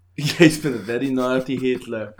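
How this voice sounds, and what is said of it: Put-on Russian-sounding accent. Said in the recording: “what was that accent? ... You sounded Russian there.”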